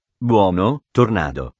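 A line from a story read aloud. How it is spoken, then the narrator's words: Masked man murmuring. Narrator (Italian): mormorò l'uomo mascherato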